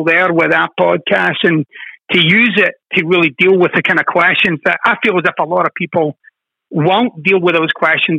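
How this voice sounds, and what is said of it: Scottish accent with transatlantic tinge. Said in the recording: “my Scottish transatlantic accent”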